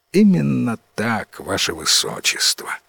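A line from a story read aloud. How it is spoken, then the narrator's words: Sighing wizard. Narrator (Russian): вздохнул самый главный волшебник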